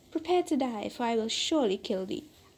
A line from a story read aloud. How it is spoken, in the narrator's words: The genie with a fierce look, exclaimed in a terrible voice